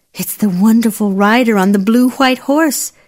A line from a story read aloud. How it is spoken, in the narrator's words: said the princess, and she sighed